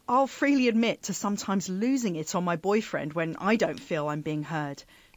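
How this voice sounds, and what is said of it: Southeast English accent. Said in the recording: “because of my accent, I come from Kent in southeast England.”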